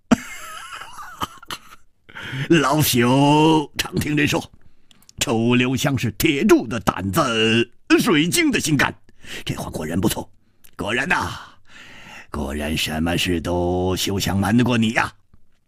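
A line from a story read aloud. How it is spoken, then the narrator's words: Hearty laughter. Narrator (Chinese): 戴都行愣了愣，大笑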